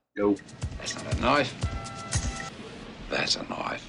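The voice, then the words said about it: Australian Crocodile Dundee impression. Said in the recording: “I can sound exactly like Crocodile Dundee ... Australian impersonation”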